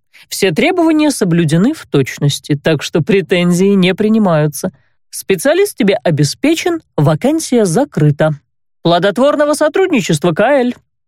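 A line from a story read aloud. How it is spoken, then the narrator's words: Openly mocking. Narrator (Russian): Уже откровенно насмешливым тоном пожелал незнакомец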